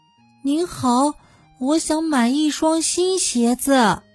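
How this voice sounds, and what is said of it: Very small, timid voice. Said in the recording (Chinese): “害羞小姐用很小很小的声音说”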